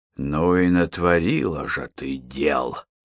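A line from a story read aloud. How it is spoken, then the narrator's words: Grumbling. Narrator (Russian): проворчал Мейнеш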